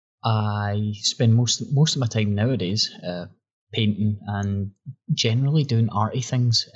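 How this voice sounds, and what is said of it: Scottish accent. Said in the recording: “I'm now 29-year-old man from Scotland. In case you couldn't tell by the accent”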